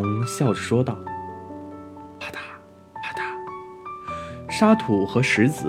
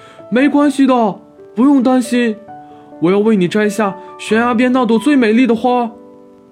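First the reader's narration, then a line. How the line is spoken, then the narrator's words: Shouting from below. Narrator (Chinese): 猫在下面大喊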